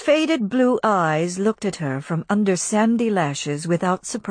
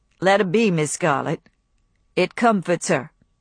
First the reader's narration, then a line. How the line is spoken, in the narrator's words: he said, in his flat voice